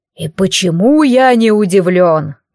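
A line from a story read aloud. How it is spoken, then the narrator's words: Deep bass voice. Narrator (Russian): пробасил он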